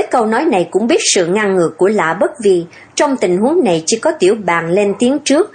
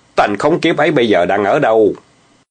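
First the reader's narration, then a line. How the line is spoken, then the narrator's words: Furious loud shout. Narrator (Vietnamese): Lã Bất Vi giận đến nỗi gân xanh cả mặt quát lớn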